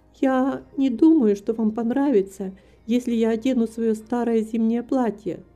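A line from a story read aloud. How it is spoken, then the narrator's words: Plain. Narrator (Russian): сказала она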